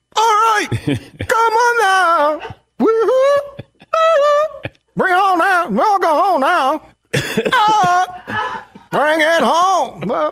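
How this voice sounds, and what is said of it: Imitates another person's singing voice. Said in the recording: “his impression sounds less like the song”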